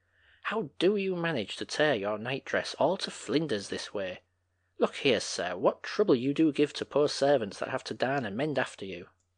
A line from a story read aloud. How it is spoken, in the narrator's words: she broke forth rather irritably